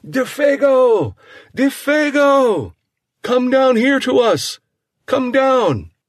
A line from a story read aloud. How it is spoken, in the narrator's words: he cried aloud